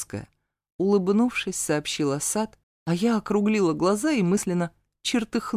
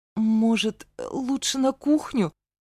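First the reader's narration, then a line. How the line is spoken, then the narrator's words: Resigned, forced out. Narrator (Russian): выдавила обреченно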